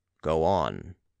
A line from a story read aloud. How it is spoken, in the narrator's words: said the count in a more imperative tone than before